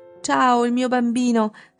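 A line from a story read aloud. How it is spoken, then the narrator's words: Emphatic shriek. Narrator (Italian): strillò enfatica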